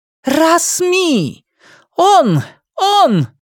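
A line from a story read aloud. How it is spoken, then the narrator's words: Exclaimed. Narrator (Russian): воскликнула сестра Мэри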